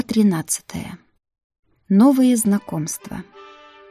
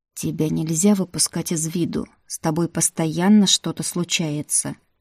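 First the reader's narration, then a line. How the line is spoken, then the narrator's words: Quiet. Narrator (Russian): тихо произнес Тим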